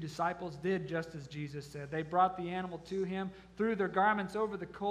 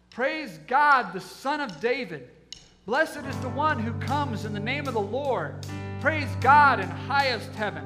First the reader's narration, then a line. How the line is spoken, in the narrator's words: the crowds all around him were shouting